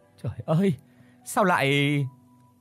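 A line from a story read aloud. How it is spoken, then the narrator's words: Trembling, halting words. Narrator (Vietnamese): người bà run rẩy rồi thốt lên từng tiếng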